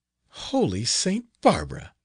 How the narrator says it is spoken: exclaimed Leonella

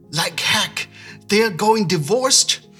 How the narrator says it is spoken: shouts

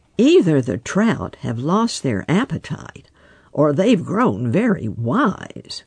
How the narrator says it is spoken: muttered Farmer Brown's boy

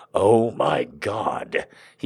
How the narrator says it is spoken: he groaned

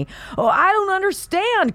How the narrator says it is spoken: cries the politician

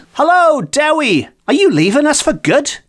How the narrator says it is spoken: a neighbour who exclaimed

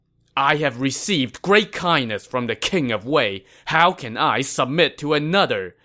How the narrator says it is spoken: said angrily

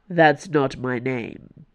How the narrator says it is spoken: Athos said

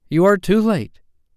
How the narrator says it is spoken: he cried proudly

